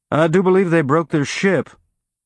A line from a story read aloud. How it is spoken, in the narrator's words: Alex replied in his Martian Mariner Valley drawl